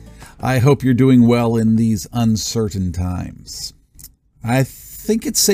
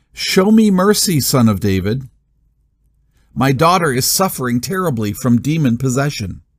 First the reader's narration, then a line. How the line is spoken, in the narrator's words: A Canaanite woman from those territories came out and shouted